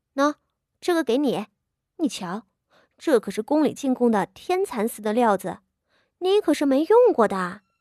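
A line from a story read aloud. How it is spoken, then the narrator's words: Laughing, pleased. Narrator (Chinese): 傅家仪 笑道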